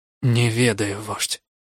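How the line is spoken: Anguished, forced out. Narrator (Russian): с мукой выдавил

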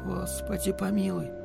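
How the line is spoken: Whisper. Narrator (Russian): шептала Марина

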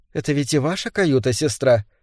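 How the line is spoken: Quiet. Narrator (Russian): тихо сказала Беллис

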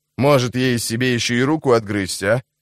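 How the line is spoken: Snarl. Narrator (Russian): зарычала

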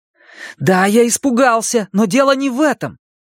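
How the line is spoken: Fervent exclamation. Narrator (Russian): с жаром воскликнул Стэн

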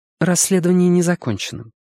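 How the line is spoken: Said calmly. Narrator (Russian): спокойно сказала Сага

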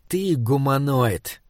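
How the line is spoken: Slow speech. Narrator (Russian): медленно сказал Ксок Сарле

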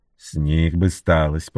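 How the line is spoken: Displeased grumble. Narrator (Russian): проворчал недовольно Энтони

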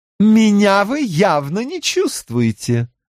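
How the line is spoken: Announcing with a laugh. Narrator (Russian): объявила она и посмеялась еще немного

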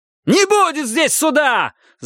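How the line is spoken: Yelling. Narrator (Russian): заорал Рид

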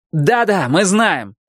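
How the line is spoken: Shouted back. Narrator (Russian): крикнул он в ответ

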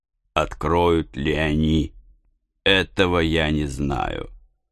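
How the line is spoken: Cold. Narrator (Russian): ответил холодно капитан Немо

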